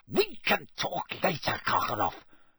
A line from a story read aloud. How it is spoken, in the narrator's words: spat Snape